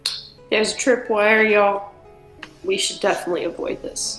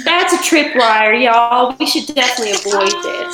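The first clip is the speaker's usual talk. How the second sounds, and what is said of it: Put-on Southern accent. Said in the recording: “I guess I should have spoken with my accent ... hi from that annoying southern girl”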